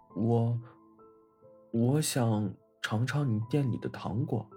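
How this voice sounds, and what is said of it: Shy, quiet, soft voice. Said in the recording (Chinese): “害羞的低下头。 小声的说”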